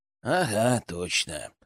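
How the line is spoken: Sad smirk. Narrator (Russian): печально ухмыльнулся Генка

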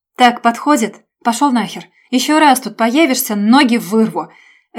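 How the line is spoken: Angry bark. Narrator (Russian): Рявкнул Женя

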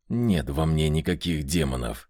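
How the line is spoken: Muttered through teeth. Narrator (Russian): процедил Меркулов

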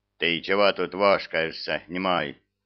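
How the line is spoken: Menacing question. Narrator (Russian): грозно вопросил старший техник

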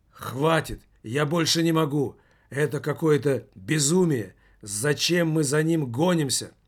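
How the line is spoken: Breathless wheeze. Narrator (Russian): прохрипел догнавший его Иван Бабылев

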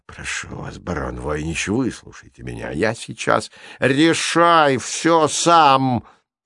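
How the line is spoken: Growl. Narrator (Russian): прорычал Маляриус Войнич

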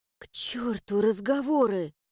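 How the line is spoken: Hoarse reply. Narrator (Russian): хрипло ответила

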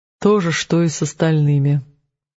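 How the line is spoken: Gloomy reply. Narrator (Russian): мрачно ответил за жену Рик

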